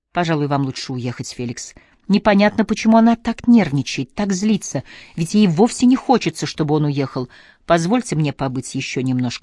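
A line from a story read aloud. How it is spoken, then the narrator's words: Soft. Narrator (Russian): сказал он мягко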